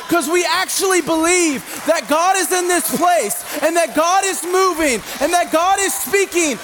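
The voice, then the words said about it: Yelling sermon delivery. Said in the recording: “I'm yelling earlier than I normally do”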